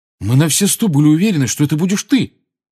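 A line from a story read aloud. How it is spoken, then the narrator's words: Exclaiming, betrayed tone. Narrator (Russian): воскликнул Фред таким тоном, словно Гарри в чем-то его обманул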